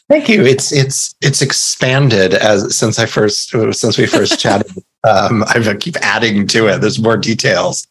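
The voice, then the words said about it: American accent. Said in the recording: “as you can tell from my accent, I live in the States”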